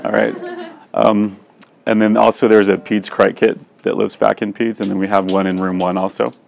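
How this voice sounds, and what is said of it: Strained, fading voice. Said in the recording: “sorry, I'm losing my voice”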